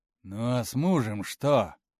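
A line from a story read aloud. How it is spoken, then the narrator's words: Rough question. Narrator (Russian): довольно грубо спросил он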